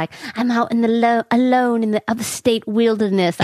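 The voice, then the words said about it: Put-on accent. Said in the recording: “I don't know why I have an accent”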